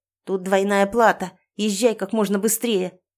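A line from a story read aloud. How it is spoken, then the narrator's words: Barked. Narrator (Russian): рявкнула я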